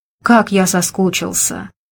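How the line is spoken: Whispered. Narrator (Russian): шептал он

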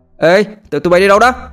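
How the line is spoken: Loud yelling. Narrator (Vietnamese): hò hét

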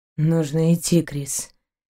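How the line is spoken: Quiet reply. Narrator (Russian): тихо отозвался капитан

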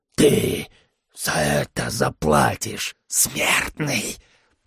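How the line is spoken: Creature's hiss. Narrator (Russian): прошипела тварь

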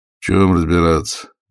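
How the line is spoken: Tired question. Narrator (Russian): усталым голосом спросил председатель

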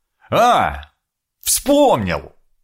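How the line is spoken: Happy, triumphant exclamation. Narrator (Russian): Со счастливым лицом, будто решил сложнейшую задачу, воскликнул я

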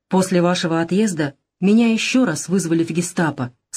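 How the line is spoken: Plain. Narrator (Russian): сказал Вебер

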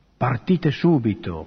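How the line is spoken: Said quietly. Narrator (Italian): Don Vianney disse piano alla superiora

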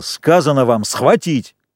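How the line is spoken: Angry yell. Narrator (Russian): Джек заорал злобно

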